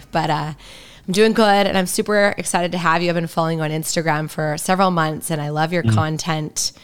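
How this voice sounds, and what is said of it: Raspy voice. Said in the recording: “I had an allergy spell. So you guys will, if you've listened, you know this is not my normal voice. So be a raspy chick today.”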